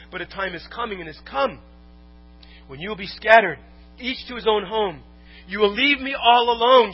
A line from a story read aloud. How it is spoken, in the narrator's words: Jesus said